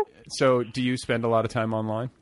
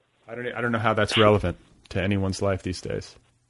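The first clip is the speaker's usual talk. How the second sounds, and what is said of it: Deadpan, flat delivery. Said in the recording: “I was trying deadpan.”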